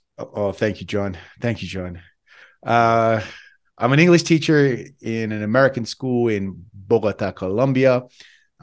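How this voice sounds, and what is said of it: Australian accent, Western Sydney. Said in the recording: “I'm from Western Sydney, Australia. Hence my bad accent.”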